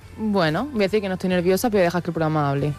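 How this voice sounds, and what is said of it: Almería Spanish accent. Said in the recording (Spanish): “te ha salido tu acento de Almería”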